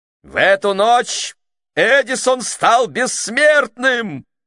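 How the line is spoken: Old man yelling. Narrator (Russian): завопил старик

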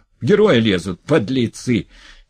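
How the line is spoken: Shouting. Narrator (Russian): кричал толстый

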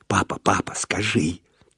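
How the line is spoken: Insistent whisper. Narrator (Russian): требовательно зашептала сбоку Валентина

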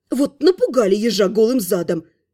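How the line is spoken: Grumbling. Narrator (Russian): проворчала я

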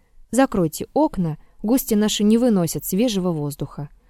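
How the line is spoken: Quiet. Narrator (Russian): тихо сказал Надежде

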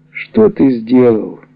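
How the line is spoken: Pitiful voice. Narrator (Russian): Особенным жалким голосом я спрашиваю

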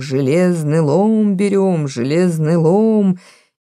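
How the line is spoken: Muffled singing. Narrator (Russian): глухо пели шарманки в пригородах

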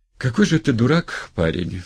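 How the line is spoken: Sad and simple. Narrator (Russian): грустно и просто сказала

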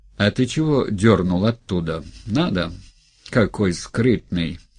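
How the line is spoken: Hoarse laughter. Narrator (Russian): Гринька засмеялся хрипло

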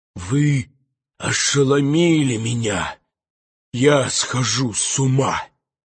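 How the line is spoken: Hoarse, choking wheeze. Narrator (Russian): захрипел поэт, чувствуя, что не может больше выносить дыму, выдыхая горький воздух

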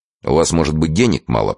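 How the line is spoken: Grumbling. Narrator (Russian): пробурчал Турбин

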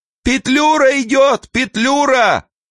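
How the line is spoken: Booming woman's shout. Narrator (Russian): на темной лестнице гулкий женский голос прокричал

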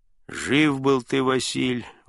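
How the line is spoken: Grumbling church clerk. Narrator (Russian): ворчал дьячок

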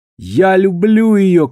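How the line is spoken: Shouting man. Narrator (Russian): крикнул он

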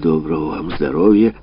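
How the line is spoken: Grumbling mutter. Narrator (Russian): отец пробурчал

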